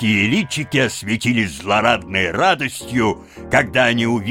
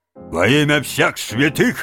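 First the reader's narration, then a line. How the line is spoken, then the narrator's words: Barked. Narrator (Russian): рявкнул на стражника полицейский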